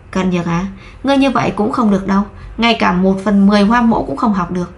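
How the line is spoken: Sighing. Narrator (Vietnamese): Lại nhìn Cận Nhược thở dài

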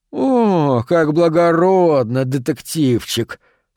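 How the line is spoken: Disgusted drawl. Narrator (Russian): С отвращением протянул Харпер

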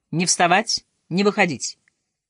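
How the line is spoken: Harsh commanding voice. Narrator (Russian): Эльза Юрьевна фашистским голосом командует

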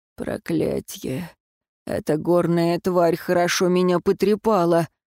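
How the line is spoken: Muttered through teeth. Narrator (Russian): сквозь зубы бормотал

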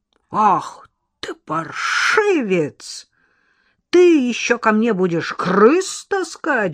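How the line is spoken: Roaring. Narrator (Russian): взревел дворник

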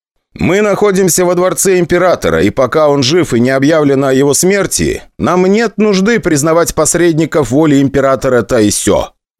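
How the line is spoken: Loud speech. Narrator (Russian): громко сказал я

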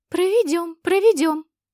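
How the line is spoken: Eager squeaky fairies. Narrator (Russian): с готовностью запищали феечки

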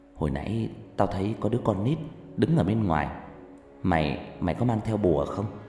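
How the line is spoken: Soft, quiet voice. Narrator (Vietnamese): một người bạn mới khe khẽ nói

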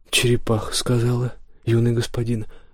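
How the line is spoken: Calm. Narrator (Russian): спокойно ответил Валдо

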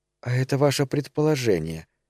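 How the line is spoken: Quiet. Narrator (Russian): тихо заговорила она

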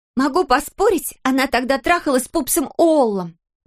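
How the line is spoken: Shouting. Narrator (Russian): прокричала Гая

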